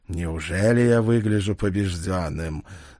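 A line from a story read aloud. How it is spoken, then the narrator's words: Arrogant snort. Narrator (Russian): заносчиво хмыкнул он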